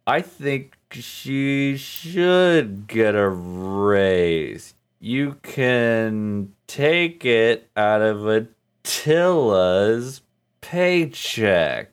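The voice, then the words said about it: Slow, drawn-out contemptuous imitated voice. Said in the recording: “there's contempt there ... slowed down a little bit ... it is like twice as long as that ... Could you do an impression?”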